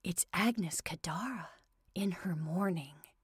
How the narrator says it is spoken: said Murty in an awed whisper

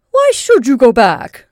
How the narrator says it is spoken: demanded scornfully

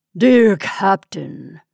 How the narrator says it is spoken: he said in a great voice, softened by habit

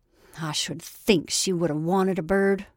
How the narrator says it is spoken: she added almost bitterly

